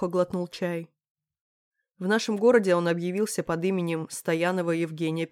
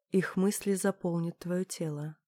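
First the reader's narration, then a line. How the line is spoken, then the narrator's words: Muttered lyric. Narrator (Russian): пробормотала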